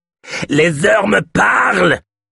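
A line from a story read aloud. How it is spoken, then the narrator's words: Small man shouting. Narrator (French): cria le petit homme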